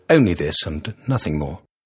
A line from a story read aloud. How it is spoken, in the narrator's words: muttered